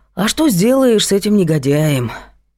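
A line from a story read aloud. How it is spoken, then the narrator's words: Sigh. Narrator (Russian): вздохнул Влад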